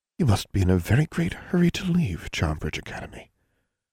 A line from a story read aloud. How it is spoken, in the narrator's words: said Miss Grimm softly